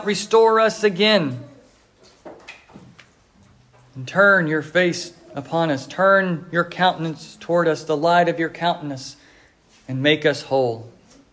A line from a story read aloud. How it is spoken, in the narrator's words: he cries out